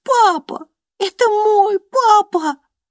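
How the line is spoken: Bursting into sobs. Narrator (Russian): разрыдалась Джейн

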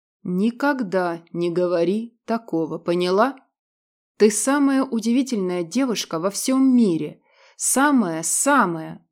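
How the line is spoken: Indignant growl. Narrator (Russian): Радмир в возмущении рыкнул, не сумев подобрать нужных слов

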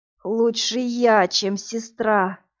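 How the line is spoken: Hoarse. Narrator (Russian): прохрипел он

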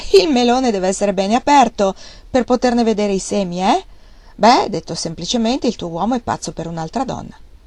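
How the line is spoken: Laughing. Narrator (Italian): lei rise e disse ancora

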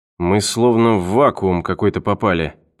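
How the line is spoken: Muttered. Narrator (Russian): пробормотал он

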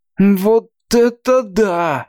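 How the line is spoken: Breathless exclamation. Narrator (Russian): выдохнул Чонси

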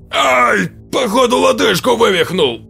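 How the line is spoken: Booming bass over din. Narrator (Russian): Сквозь общий гомон прогремел бас Бори

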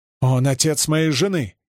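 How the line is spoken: Younger man exclaiming. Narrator (Russian): воскликнул младший

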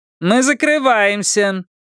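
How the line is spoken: Said loudly. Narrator (Russian): громко сказала официантка

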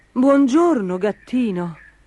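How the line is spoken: Knight's exclamation. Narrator (Italian): esclamò il cavaliere

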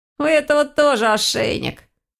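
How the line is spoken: Snorting student. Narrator (Russian): хмыкнул один из студентов

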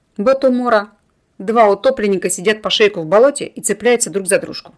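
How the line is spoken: Grumbling. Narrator (Russian): пробурчал Кетель

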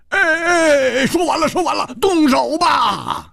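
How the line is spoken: Loud, in unison. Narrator (Chinese): 戴独行和胡铁花不约而同大声说

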